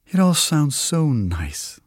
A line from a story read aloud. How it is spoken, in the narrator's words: the lady says with a sigh